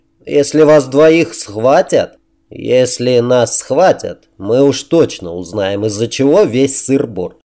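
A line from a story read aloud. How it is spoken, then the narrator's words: Plain. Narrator (Russian): ответил ему Грейсон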